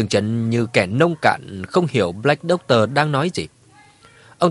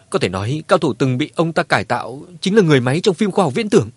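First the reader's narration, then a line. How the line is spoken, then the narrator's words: Fearful. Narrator (Vietnamese): Satan sợ hãi nói với Dương Trấn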